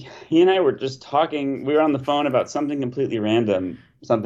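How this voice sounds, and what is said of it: Usual voice. Nothing is said of it.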